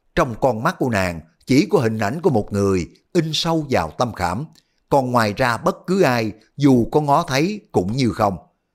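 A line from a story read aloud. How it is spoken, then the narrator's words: Sighing. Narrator (Vietnamese): Đoàn Dự thở dài nói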